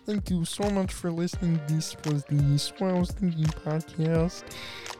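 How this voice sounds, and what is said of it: Quiet Kermit the Frog voice. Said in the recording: “That is the best impression you have ever done... most spot-on impression you have ever done... It's quieter now than it was the first time.”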